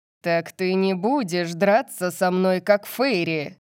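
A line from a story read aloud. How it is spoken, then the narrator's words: Growl. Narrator (Russian): Зарычал Сет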